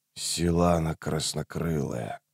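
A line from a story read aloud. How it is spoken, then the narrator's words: Muttering. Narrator (Russian): пробормотал Рейст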